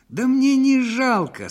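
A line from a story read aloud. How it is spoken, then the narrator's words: Desperate shout. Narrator (Russian): с отчаянием выкрикнул ему вслед управдом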